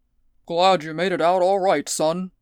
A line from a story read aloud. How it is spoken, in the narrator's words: boomed Bullion